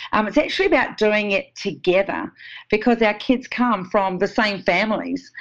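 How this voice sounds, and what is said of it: New Zealand accent. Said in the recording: “is a complete New Zealand accent ... I love the Kiwi accent”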